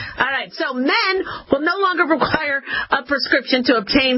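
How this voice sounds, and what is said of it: Usual voice. Nothing is said of it.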